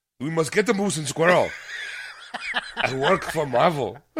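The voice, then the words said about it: Put-on Russian accent. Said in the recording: “Why'd you do a Russian accent?”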